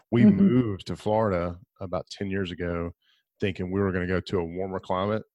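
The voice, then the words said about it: Southern American accent. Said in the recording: “I like your southern accent ... grew up in Alabama. So that's where the accent comes from. It also comes from sleep deprivation, and not having enough coffee.”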